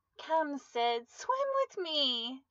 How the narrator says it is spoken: exclaimed

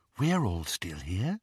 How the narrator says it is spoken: she whispered

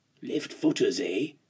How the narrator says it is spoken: I whispered to Goosey

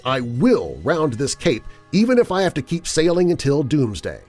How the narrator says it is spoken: screamed out a curse

